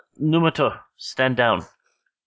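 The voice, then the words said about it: Timid voice, Japanese accent. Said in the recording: “a kind of timid voice with a kind of Japanese accent”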